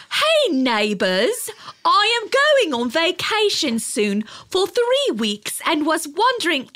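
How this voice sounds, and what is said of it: Put-on British accent. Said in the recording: “Should I read it in a British accent”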